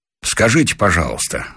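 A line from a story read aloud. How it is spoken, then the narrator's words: Plain. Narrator (Russian): спросил он Корещенко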